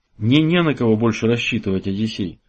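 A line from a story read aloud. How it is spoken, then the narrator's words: Sad. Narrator (Russian): грустно продолжил он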